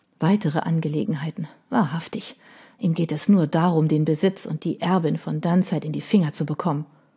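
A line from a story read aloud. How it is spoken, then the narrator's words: Mother murmuring. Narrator (German): hörte sie ihre Mutter murmeln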